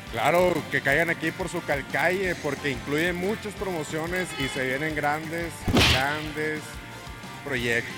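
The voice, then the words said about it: Announcer-like radio voice. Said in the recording (Spanish): “tú sí tienes voz de locutor”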